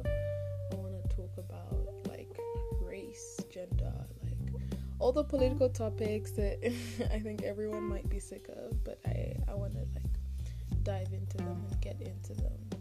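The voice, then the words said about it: Western-sounding accent. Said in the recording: “my accent is quite Western”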